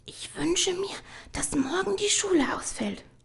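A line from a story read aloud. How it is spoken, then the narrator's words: Soft. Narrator (German): sagte sie leise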